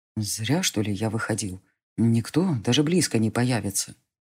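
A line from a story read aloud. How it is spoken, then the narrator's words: Whispered. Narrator (Russian): прошептал он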